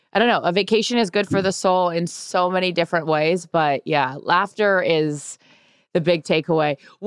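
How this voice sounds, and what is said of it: Hoarse voice. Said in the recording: “this voice is hoarse”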